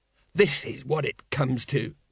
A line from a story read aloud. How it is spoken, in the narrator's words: muttered Colon